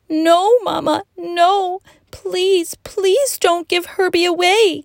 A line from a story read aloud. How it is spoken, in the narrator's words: wailed the girl